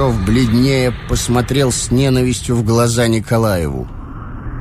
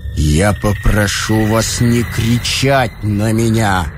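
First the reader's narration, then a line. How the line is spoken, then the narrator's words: Muffled, drawn-out voice. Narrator (Russian): глухо и протяжно произнес Ромашов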